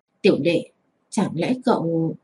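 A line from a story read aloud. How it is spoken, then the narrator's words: Quiet voice. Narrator (Vietnamese): một vị học tỷ nhỏ giọng nói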